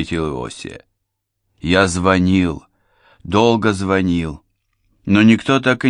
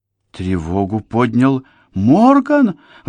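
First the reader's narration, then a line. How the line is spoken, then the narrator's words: Exclaimed. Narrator (Russian): воскликнула Дженни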